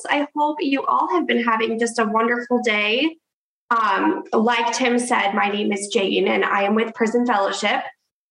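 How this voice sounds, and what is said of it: Congested voice from a cold. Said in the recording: “I have a cold, I'm so congested”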